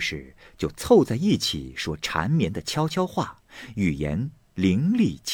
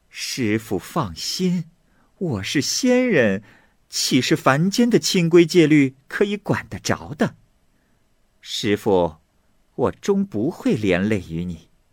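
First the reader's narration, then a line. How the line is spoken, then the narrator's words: Laughing loudly. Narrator (Chinese): 莲花女子大笑说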